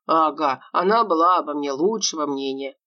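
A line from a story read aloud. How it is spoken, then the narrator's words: Grumbled aside. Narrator (Russian): пробурчал в сторону полковник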